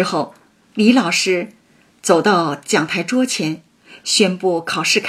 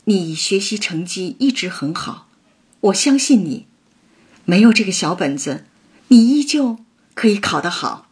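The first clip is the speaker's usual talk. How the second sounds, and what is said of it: Gentle, very quiet soft voice. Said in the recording (Chinese): “用温和、特别小声的、特别小的那个声音说”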